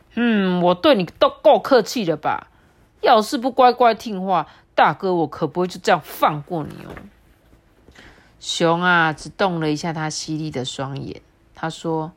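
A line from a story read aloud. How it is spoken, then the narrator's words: Loud voice. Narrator (Chinese): 刺猬也很大声的说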